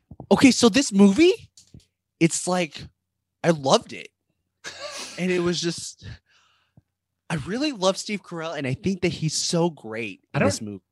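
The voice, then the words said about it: Imitates another person's voice. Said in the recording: “Should I do an impression of Allison? ... I'm still going to be Allison.”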